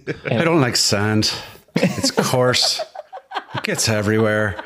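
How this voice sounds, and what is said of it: Irish accent. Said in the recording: “With a great Irish accent.”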